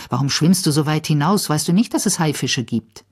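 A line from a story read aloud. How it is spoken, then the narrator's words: Angry. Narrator (German): sagt zornig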